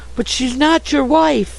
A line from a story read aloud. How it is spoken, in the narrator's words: cried Sue distractedly